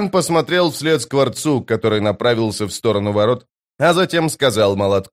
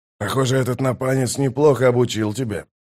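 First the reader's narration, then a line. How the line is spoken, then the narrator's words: Mutter. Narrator (Russian): пробормотал Скворец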